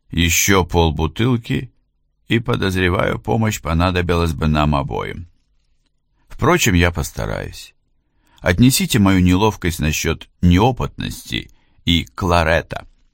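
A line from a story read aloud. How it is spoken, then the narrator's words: Calm reply. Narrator (Russian): Адам спокойно ответил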